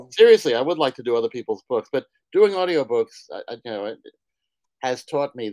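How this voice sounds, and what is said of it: New York accent. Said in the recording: “if you ever need a New York accent, I'm available ... I thought I didn't have much of a New York accent, but apparently I've been fooling myself.”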